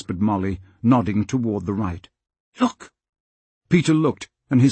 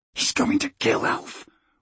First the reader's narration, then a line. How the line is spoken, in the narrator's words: whispered Peter